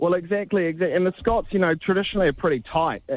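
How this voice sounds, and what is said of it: Usual voice. Nothing is said of it.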